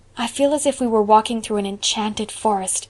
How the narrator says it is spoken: said Anne in a hushed tone

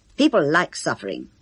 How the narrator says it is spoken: Kenneth would retort angrily

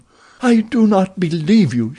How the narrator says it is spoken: she cried

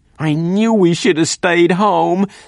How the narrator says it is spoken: spluttered terror-stricken voice

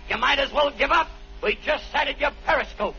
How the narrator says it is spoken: The captain yelled back

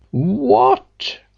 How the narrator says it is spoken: cried the old man

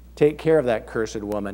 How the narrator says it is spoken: he said

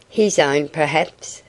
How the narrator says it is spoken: said Artis

